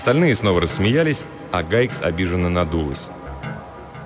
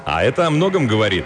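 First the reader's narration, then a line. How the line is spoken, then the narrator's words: Cheerful. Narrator (Russian): весело добавил Риш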